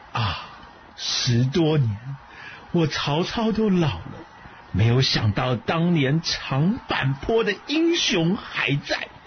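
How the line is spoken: Soft admiring exclamation. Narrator (Chinese): 曹操，忍不住发出了轻轻的赞叹，说

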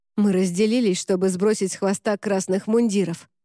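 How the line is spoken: Hoarse rasp. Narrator (Russian): прохрипел Рене

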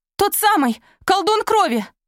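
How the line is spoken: Cried out. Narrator (Russian): Изольда вскрикнула

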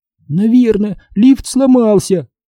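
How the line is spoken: Whining. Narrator (Russian): захныкала Либи

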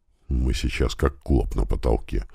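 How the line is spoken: Muttered. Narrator (Russian): пробормотал Иван Земцов

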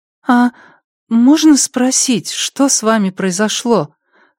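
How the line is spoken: Timid question. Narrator (Russian): робко поинтересовалась Пенни

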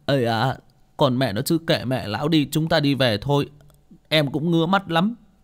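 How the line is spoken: Tearful whimpering. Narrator (Vietnamese): Bảy Ếch cũng mếu máo

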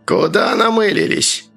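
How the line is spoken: Creaky flat tone. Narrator (Russian): проскрипел начальник безликим тоном

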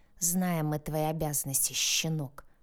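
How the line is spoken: Hissing. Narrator (Russian): прошипел Янош

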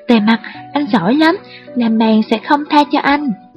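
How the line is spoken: Loud shout. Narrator (Vietnamese): Phong Tế hét lớn với Thề Mặt

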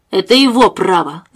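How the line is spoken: Resolute declaration. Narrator (Russian): заявил Томас решительным голосом

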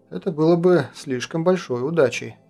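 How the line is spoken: Sighing. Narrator (Russian): вздохнул Кронин

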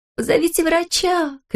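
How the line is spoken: Shouting. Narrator (Russian): кричала Леня

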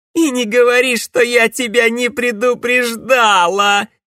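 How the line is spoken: Loud laughter. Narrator (Russian): расхохоталась она

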